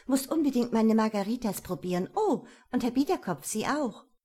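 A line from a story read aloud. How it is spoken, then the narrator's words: Calling out. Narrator (German): rief sie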